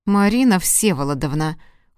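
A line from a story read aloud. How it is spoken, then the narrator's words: Cold. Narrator (Russian): холодно произнес он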